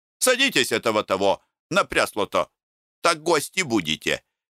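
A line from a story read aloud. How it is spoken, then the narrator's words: Shouting. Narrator (Russian): кричал Тит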